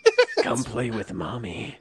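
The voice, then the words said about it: Creepy cartoon character voice. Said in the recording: “that's my Caillou impression ... Sounds like a creepy version of it”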